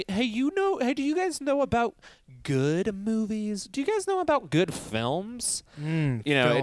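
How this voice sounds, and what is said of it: Mock know-it-all film buff voice. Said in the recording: “That was just my impression of, like, everybody becomes a armchair, like, Oscar expert”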